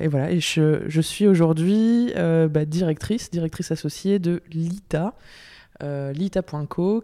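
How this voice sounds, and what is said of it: French accent. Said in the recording (French): “tu es française, d'où ce magnifique petit accent”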